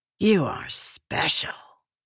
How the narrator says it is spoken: Ulim whispered

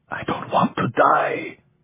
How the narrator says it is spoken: the other whispered

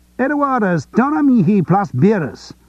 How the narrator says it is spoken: shouted one

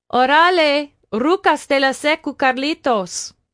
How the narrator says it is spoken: Nayeli shouted back

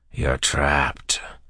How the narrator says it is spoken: the Inquisitor said in a scratchy voice

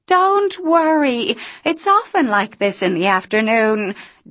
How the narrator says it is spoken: Dee shouted over a wind so rough

